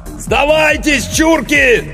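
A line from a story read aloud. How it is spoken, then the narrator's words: Yelling through megaphone. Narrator (Russian): заорал Иванов в мегафон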